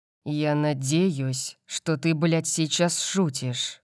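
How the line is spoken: Deathly low voice. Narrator (Russian): сказал Калиб смертельно низким голосом

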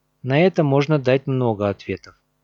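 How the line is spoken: Calm. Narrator (Russian): спокойно сказал Лорн

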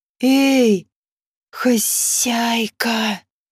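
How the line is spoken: Quiet hiss. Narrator (Russian): тихо зашипел один из них

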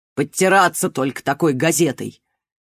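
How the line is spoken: Suddenly rude mother. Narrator (Russian): Неожиданно грубо сказала мать

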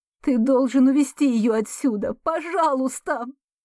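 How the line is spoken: Sobbing. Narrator (Russian): У меня опять вырываются рыдания

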